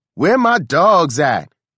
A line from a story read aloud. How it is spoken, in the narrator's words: She was hollering